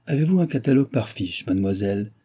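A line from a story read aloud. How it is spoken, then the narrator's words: Pleasant, slightly brusque. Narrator (French): demanda-t-il d'une voix agréable un peu brusque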